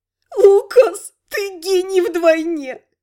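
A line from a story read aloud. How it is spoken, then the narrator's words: Moaning through laughter. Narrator (Russian): простонала сквозь смех Элька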